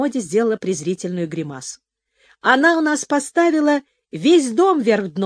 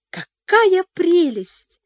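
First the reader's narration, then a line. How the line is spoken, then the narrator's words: Delighted exclamation. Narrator (Russian): воскликнула Пепси, всплескивая руками от восторга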